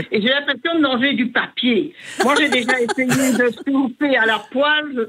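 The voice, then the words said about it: Regional Belgian French accent. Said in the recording (French): “j'adore votre accent.”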